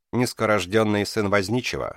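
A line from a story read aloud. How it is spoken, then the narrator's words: Dry. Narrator (Russian): сухо сказал Кришна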